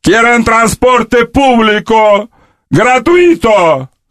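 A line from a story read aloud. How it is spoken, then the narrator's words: Shouting. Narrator (Russian): кричал Фидель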